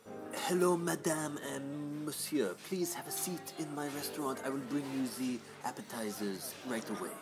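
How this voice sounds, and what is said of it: Put-on French accent. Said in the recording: “French accent. Ooh la la.”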